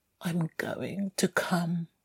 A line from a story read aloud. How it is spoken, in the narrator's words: he mumbled